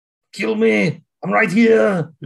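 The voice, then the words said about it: Imitates another person's voice. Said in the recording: “her best Arnold impression”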